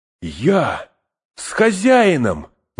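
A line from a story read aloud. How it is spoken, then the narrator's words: Eager exclamation. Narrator (Russian): воскликнул, подскочив, как собака, которую позвали гулять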